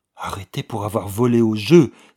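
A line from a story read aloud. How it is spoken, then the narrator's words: Girl's horrified, disgusted cry. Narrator (French): s'écria la jeune fille, avec une indicible expression d'horreur et de dégoût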